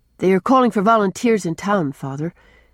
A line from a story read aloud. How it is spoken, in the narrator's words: said Jem